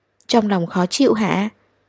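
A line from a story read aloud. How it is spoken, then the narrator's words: Soft question. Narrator (Vietnamese): anh nhỏ giọng hỏi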